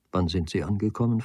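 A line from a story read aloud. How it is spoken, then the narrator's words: Plain question. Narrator (German): fragte Nagel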